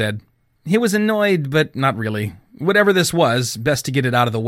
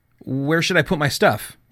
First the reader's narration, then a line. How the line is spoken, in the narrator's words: asked